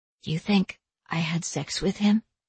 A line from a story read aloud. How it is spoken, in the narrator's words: she asked softly